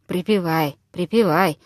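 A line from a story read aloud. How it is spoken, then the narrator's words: Low half-voiced mutter. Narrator (Russian): в полголоса пробормотал Виктор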